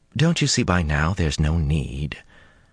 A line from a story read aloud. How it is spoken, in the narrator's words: Her tone was so mild